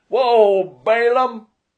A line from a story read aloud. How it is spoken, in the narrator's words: He shouted